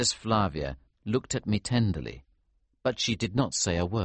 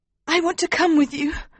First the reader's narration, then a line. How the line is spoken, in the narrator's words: Princess Flavia said desperately